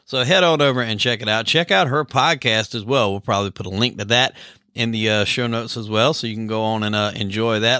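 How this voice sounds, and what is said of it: Thick South Carolina accent. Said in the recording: “We have we both have very thick accents. ... me being from South Carolina.”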